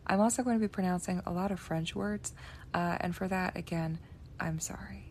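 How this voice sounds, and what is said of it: Hoarse, fried voice. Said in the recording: “my voice is a little bit fried”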